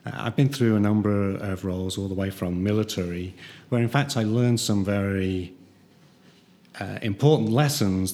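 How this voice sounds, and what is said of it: British accent. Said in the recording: “I started across the pond, and you might be able to tell with the accent”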